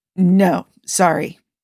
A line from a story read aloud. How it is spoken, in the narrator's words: finally sputtered out